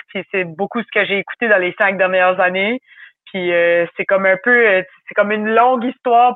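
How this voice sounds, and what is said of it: Acadian French (Chiac) accent. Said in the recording (French): “le parler dont je parle en Acadie. Je viens du Nouveau-Brunswick... C'est un accent qui est différent... le chiac, c'est mon parler... c'est avec cet accent-là que je parle”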